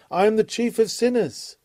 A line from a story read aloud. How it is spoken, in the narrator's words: The proud Pharisee became a humble penitent, and he who thought himself blameless cried out